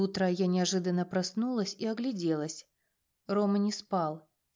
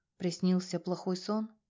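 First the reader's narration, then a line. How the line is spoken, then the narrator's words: Plain. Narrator (Russian): спросил он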